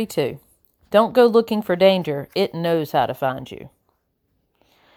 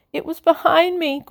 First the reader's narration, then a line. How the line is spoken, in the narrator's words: Gwendol moans